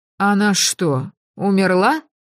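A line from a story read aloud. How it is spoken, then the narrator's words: Hoarse question. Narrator (Russian): хрипло спросила Кадзия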